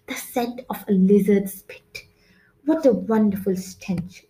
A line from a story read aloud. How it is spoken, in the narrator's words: she exclaimed